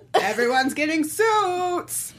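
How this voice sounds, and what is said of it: Oprah Winfrey impression. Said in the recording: “my Oprah impression”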